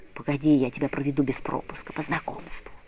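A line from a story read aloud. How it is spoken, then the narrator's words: Soft whisper. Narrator (Russian): мальчик в синей куртке тихо шепнул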